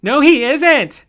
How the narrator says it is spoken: screamed

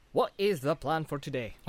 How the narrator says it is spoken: asked Pippin

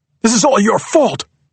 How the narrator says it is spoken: shouts David, glaring at her

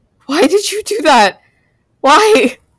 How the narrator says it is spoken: cried

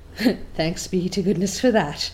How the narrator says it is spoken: breathed Marilla in a devout relief

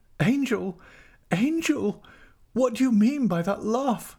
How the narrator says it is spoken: cried out

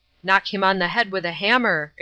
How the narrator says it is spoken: exclaimed

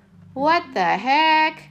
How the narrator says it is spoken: the customer yelled, ringing the office

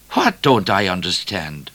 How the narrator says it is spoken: The bushranger appeared to be laughing a great deal under his handkerchief

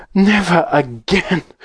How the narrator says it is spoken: gasped Mrs

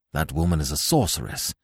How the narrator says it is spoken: muttered Nayland Smith

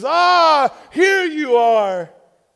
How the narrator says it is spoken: he exclaimed

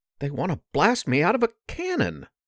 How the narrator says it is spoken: Porkchop exclaimed

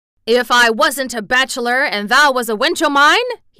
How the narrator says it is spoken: he cried

